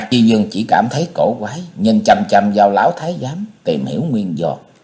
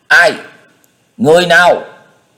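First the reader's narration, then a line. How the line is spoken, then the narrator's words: Calling out. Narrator (Vietnamese): Tấn Dương lên tiếng kêu lên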